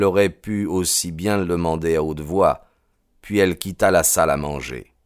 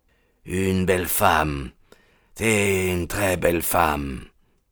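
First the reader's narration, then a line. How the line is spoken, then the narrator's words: Pensive murmur. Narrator (French): murmura pensivement MacDonald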